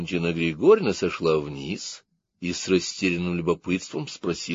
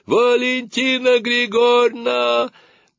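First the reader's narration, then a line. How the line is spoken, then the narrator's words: Shouting in unison. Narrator (Russian): Сережка и Наташка дружно закричали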